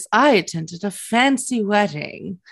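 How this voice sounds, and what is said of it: Classy, posh-sounding voice. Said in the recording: “in my classy voice”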